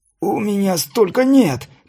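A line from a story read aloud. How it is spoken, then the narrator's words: Carpenter's hoarse rasp. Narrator (Russian): прохрипел плотник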